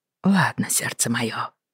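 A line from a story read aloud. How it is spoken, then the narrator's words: Soft, gentle. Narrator (Russian): мягко сказал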